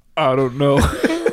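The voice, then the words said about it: Deeper dad voice. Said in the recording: “your voice gets so much deeper. ... That's a dad voice. ... That was a perfect impersonation.”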